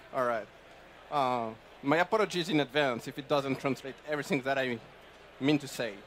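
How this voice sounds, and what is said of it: French accent. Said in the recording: “my French accent”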